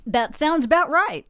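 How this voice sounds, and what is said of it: Put-on Texas accent. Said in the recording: “You said that with a Texas accent.”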